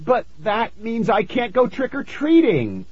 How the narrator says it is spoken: I cried

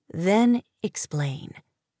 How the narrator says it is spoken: he said slowly

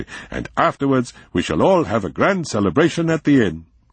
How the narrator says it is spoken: he said excitedly

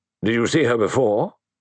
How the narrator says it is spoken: The question came sharply

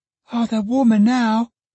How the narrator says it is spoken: exclaimed the child

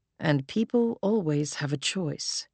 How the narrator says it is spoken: Hero added softly

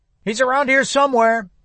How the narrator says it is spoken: came the shout from the sunlit morning

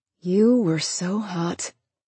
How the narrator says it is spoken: she muttered in a voice made slightly breathless from his kiss

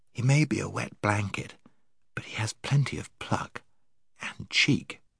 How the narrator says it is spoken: whispered Scrub to Jill

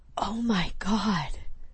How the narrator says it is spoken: Lark whispered

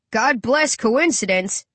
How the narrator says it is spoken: the driver laughs

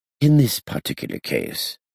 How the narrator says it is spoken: Duban Stoker kindly explained

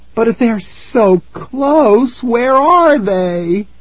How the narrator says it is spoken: Tara cried

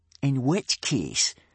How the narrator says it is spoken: sneered Snot-Face Snotlout, a great bullying brute of a boy

